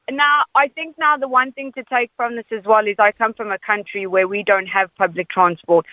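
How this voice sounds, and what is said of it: South African accent. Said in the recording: “I detect the South African accent”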